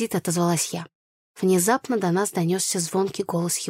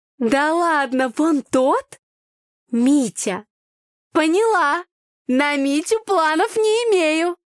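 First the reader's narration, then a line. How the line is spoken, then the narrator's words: Loud laughter. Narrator (Russian): Юля громко расхохоталась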